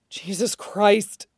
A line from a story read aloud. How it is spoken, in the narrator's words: Shiro mumbled out, pressing his face into the table